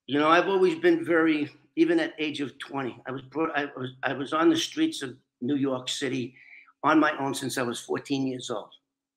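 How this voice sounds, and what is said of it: Speaks with a noticeable, funny accent. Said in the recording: “I make talk with this funny accent.”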